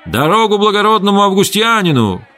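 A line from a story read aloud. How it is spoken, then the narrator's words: Runners shouting. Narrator (Russian): кричали скороходы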